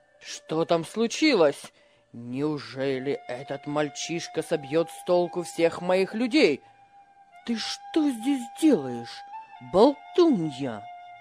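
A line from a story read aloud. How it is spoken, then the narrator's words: Angry. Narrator (Russian): Злобно обратился хозяин к Магдалине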